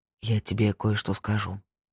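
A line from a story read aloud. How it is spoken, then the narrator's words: Whisper. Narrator (Russian): прошептал Пуласки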